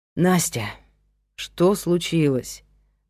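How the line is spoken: Sigh. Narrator (Russian): вздохнул он

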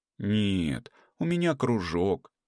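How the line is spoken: Hesitant drawl. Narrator (Russian): неуверенно протянула Света

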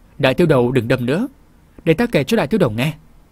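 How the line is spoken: Hurried, placating. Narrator (Vietnamese): vội nói

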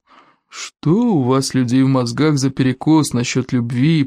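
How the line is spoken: Grumbling. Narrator (Russian): проворчал гордость

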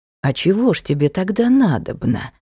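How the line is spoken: Insinuating question. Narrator (Russian): вкрадчиво спросил рыцарь

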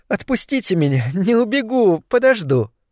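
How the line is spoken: Laughing speech. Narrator (Russian): Елизавета Ивановна даже засмеялась и сказала

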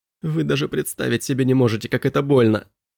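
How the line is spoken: Whimper. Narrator (Russian): прохныкал Элиас

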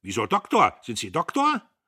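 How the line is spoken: Calling out. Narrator (German): Diederich rief

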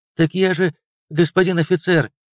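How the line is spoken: Agitated. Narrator (Russian): взволнованно заговорил полицейский

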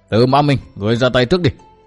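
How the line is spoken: Old man shouting loudly. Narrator (Vietnamese): Xuyên tâm sứ già quát lớn

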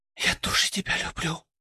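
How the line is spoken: Very faint whisper. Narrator (Russian): прошептала она, и голос ее был таким тихим, что я едва расслышал его

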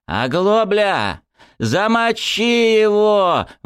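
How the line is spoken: Gang leader yelling. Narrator (Russian): вопил неформальный главарь шайки

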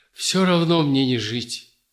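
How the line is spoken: Strained, word by word. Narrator (Russian): Дмитрий с трудом слово за словом выдавил

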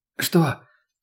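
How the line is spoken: Hoarse question. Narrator (Russian): хриплым голосом уточнила она

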